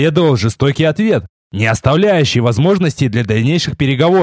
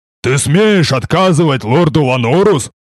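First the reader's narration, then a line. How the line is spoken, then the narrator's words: Huge man roaring. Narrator (Russian): взревел огромный детина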